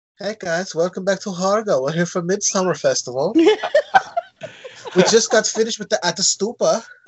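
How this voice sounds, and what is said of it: Attempted Swedish accent, sounds German. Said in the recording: “I don't know why I sound German. I don't know a Swedish accent ... That sounded legit to me.”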